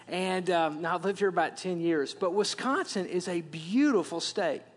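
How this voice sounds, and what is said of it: Wisconsin accent. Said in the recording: “as you can tell from my accent, I'm from Wisconsin ... I had that deep, yeah”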